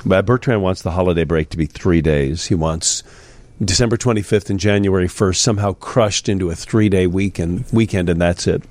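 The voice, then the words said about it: Sick, congested voice. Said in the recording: “I don't know if you're going through what I've been going through. You can hear it in my voice a little bit.”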